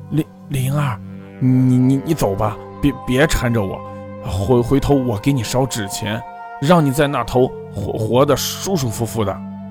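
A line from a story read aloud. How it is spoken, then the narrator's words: Trembling voice. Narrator (Chinese): 他声音颤抖地说道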